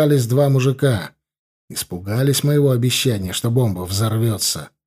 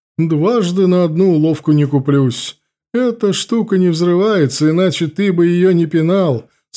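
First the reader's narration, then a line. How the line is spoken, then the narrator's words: Mocking. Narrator (Russian): сказал он насмешливо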